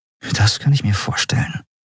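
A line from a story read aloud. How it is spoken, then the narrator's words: Murmur. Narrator (German): murmelte Andriel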